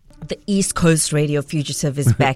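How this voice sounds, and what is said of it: Put-on very deep voice. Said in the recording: “Is that deep enough? He's got a very deep voice... I think you can go deeper.”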